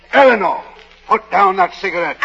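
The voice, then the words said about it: Shouting. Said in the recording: “stop shouting”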